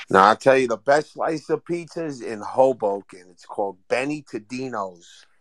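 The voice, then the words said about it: New York accent. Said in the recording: “cool accent ... the New York umph”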